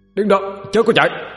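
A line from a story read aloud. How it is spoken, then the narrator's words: Loud shout. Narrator (Vietnamese): Hà quát lớn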